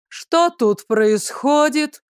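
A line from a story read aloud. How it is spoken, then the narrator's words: Haughty question. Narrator (Russian): Вопрос был задан невероятно высокомерным тоном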